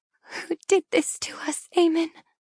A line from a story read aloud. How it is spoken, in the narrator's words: I murmur between sobs